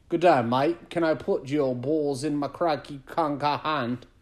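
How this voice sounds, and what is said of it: Put-on Australian accent. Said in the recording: “how about Australian? ... So I'll try it for you.”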